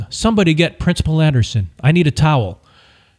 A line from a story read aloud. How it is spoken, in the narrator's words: She yelled